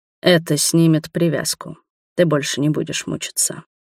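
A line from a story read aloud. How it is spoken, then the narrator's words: Low hoarse dragon voice. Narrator (Russian): проговорил дракон низким хриплым голосом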